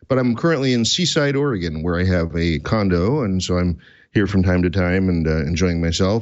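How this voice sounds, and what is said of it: Hoarse, fading voice. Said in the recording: “I'm currently losing my voice, so we'll see how long that lasts.”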